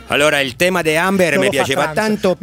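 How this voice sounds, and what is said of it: Imitates another person's voice. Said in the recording (Italian): “con la voce di Julio Iglesias”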